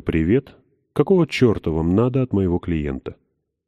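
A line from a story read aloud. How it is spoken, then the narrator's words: Calm. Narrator (Russian): спокойно так говорю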